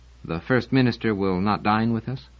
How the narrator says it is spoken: He said, rather quietly, trying to make it not sound like a question

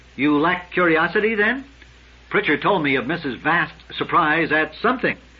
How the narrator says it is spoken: He said, firmly restraining the rush of desperation

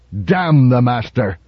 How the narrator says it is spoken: Donovan spat

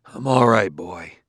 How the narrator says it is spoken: said Bailey hoarsely

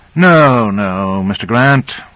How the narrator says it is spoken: Michaels sighed wearily

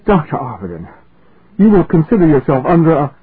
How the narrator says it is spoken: Ennius said gaspingly

